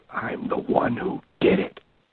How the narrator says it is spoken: And the caller responds in a terrifying whisper

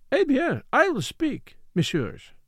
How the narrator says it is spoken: cried

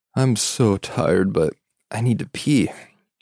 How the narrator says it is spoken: I yawned and said

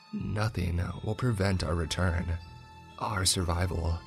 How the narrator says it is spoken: she whispered

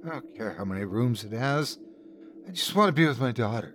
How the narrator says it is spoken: My wife looked at him with tear-glazed eyes and muttered

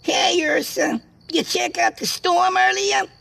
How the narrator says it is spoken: the squeaky voice of Jimmy shouted

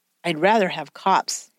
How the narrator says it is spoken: Jagger said

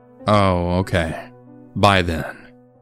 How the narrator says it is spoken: she said in an almost disappointed tone

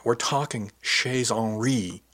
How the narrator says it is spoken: she exclaimed with a grin

